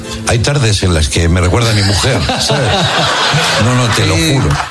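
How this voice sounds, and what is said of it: Put-on Argentine accent. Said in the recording (Spanish): “Segundo programa en Argentina. ... ¿Te sale el acento? ... Sí, me sale el acento, che, obvio, estoy aquí.”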